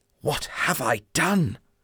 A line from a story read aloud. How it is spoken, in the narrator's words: I whispered